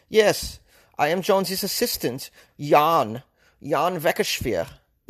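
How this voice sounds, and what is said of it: Put-on foreign accent. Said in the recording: “How's that for an accent? I'm just trying shit out.”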